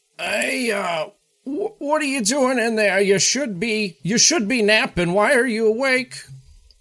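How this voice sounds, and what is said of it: Old man's voice. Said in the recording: “he sounds old”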